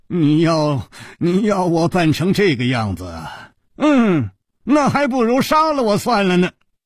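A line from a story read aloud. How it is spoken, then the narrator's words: Long sigh. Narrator (Chinese): 长长地叹气了一声 说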